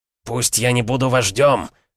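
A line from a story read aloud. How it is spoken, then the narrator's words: Growl. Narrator (Russian): прорычал Кром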